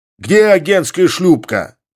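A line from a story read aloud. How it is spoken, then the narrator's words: Shouting. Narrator (Russian): крикнул он гребцам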